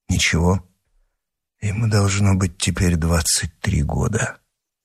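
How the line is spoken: Whispered. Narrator (Russian): прошептал Атос

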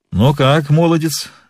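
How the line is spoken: Laughing question. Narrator (Russian): смеясь спросил один

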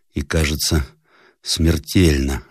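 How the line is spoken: Faint voice. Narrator (Russian): отвечал едва слышным голосом капитан

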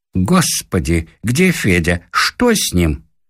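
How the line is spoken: Anxious, burred Russian. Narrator (Russian): В беспокойстве она говорила картаве по-русски

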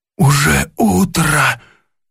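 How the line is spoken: Exclaimed. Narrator (Russian): воскликнул он

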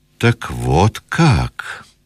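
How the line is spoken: Strangely calm voice. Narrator (Russian): промолвил он странно спокойным голосом

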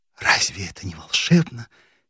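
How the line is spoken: Quiet tearful recitation. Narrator (Russian): тихо декламировала Нина, и в отблесках костра были видны ее подернутые влагой глаза

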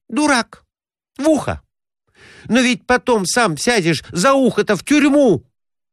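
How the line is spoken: Exclaiming. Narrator (Russian): воскликнула она

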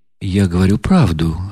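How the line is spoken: Calm, imperturbable. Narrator (Russian): отвечал князь прежним, совершенно невозмутимым тоном

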